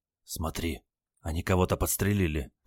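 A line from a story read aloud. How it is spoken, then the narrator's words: Anxious whisper. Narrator (Russian): тревожно зашептал внук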